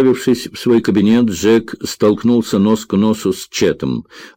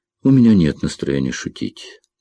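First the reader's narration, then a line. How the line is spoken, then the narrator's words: Gloomy reply. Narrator (Russian): мрачно отозвался Джек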